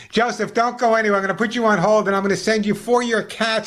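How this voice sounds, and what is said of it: New York accent. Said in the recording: “unlike me, you lost your New York accent. Mine stays with me forever.”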